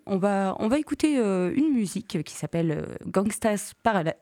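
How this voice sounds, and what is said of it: Poor English pronunciation, French accent. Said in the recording (French): “c'est vraiment un désastre, cet accent”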